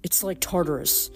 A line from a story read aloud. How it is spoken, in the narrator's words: Percy said, his voice edgy